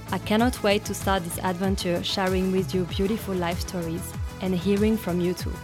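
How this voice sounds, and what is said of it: French accent in English. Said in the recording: “As French in Australia ... a bit of an accent.”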